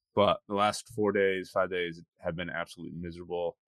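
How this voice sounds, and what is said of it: Sick-sounding voice. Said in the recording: “Got sick when I got back... For those of you who can hear it in my voice, I'm still kind of kicking it a little bit.”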